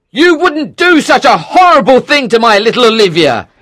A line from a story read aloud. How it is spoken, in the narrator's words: he shouted